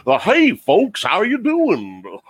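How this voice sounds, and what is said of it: Goofy impression. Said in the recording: “a good Goofy impression ... it's an okay Goofy impression”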